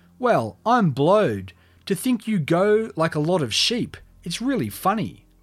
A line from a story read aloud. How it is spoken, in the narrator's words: Weaver shouted